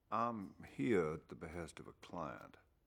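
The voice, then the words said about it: Subtle Southern US accent. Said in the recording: “speaks with a subtle Southern accent.”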